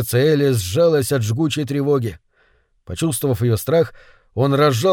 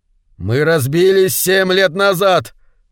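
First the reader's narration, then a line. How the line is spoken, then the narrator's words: Desperate shout. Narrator (Russian): закричал он в отчаянии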